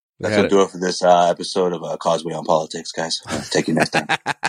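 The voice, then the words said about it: Public radio announcer voice. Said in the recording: “my NPR voice”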